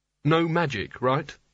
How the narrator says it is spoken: he said

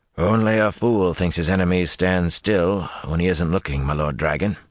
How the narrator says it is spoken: the old man said in a gruff voice

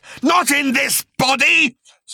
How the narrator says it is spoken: screeched the creature

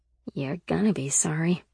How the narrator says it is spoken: Sybil muttered

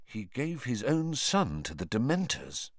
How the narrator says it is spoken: asked Harry quietly

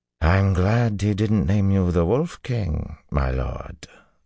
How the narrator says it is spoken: the banner general drawled

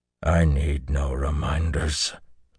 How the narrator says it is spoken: Luce Theron growled

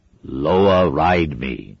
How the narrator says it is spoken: he intoned

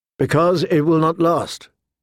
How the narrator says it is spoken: Catelyn answered sadly

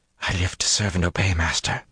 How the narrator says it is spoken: she breathed

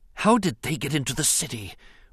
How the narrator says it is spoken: Rune Hakko whispered in dismay

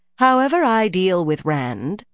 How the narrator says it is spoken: said coolly

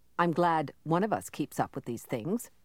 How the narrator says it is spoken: Kai said dryly

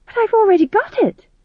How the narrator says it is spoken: said Tom John desperately

